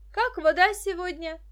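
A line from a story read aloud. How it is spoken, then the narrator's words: Shouted. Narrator (Russian): крикнула она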